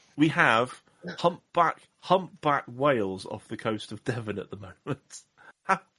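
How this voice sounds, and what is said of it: Usual voice. Nothing is said of it.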